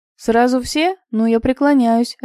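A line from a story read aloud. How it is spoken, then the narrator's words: Laughing. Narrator (Russian): рассмеялся Илья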